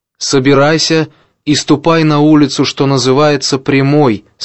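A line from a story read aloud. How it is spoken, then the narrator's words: Plain. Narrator (Russian): сказал Господь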